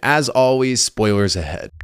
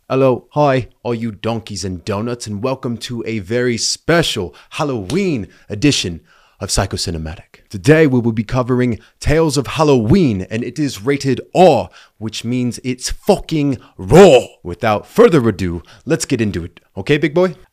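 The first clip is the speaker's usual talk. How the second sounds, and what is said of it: Put-on accent. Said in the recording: “I won't put you through any more of that accent.”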